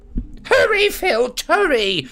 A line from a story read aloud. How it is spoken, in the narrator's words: shrieked Umbridge